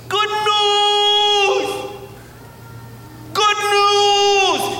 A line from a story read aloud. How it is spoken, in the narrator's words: he was yelling this